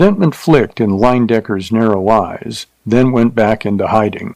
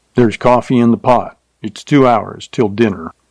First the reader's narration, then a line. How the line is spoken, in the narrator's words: Curtly, he said